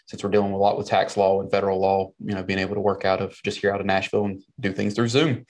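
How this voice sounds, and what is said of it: Southern twang accent. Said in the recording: “that Southern twang in your voice ... born and raised in South Carolina”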